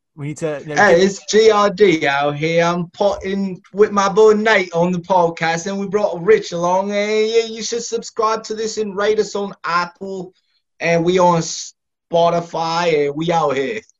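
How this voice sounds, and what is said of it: Attempted British accent, not too bad. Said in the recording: “we need to hear your best British accent ... No, I'm terrible ... It's not too bad. It's not too bad.”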